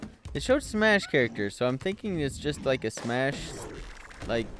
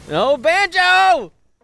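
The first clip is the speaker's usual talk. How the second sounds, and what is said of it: Yelling excitedly. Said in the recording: “you're yelling.”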